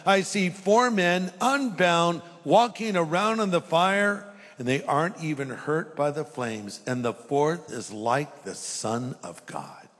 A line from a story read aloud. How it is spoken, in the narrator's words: Nebuchadnezzar shouted